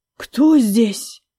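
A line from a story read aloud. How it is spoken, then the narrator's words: Anxious breathy question. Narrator (Russian): тревожно выдохнула вопрос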